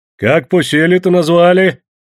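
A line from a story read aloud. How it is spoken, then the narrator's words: Cheerful deep bass. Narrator (Russian): весело густым басом спрашивал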